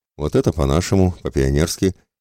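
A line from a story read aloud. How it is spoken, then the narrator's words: Snort turning serious. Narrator (Russian): хмыкнув, Михайло тут же посерьезнел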